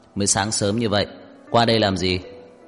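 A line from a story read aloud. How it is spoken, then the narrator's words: Cold and cryptic. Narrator (Vietnamese): lạnh lùng khó hiểu nói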